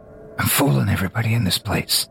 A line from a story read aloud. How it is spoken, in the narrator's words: Drunkish whispers